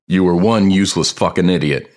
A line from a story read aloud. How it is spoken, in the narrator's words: he yells